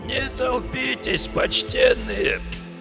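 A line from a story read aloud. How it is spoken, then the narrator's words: Raspy cracked voice. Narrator (Russian): Сиплым надтреснутым голосом попросил он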